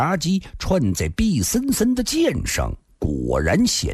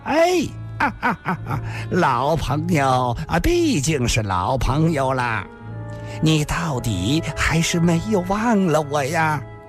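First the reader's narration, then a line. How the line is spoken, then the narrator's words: Laughing heavily. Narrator (Chinese): 他似乎笑得太多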